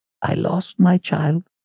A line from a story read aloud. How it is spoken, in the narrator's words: Addie said in a soft rasp